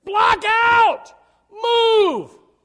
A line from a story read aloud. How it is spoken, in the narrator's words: You have to yell